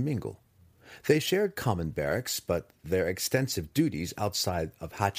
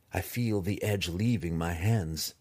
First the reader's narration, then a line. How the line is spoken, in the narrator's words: Drizzt replied quietly